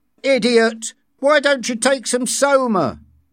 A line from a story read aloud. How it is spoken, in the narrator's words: one of them shouted at John from a safe distance